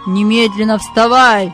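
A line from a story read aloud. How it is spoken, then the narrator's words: Shouted. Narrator (Russian): крикнул он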